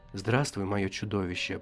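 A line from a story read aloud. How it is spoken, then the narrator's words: Icily tender. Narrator (Russian): произнесла она столь нежно, сколь может быть нежной стужа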